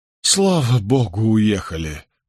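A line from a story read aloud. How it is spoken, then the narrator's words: Relieved sigh. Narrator (Russian): вздохнул Соттертон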